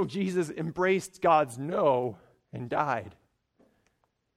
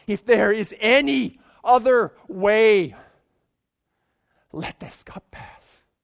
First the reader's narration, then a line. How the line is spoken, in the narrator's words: That was a moment of distress, and he cried out to God and asked God